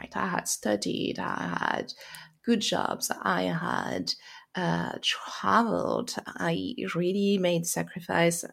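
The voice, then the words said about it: French accent. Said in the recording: “you hear by my accent, probably I am French”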